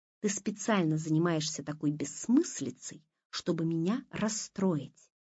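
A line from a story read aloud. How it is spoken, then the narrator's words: Quiet tense voice. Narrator (Russian): тихим напряженным голосом говорила Дина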